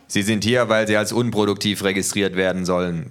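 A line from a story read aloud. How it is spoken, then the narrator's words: Plain. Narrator (German): sagte der Gehilfe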